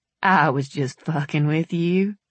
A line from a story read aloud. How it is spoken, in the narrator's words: he muttered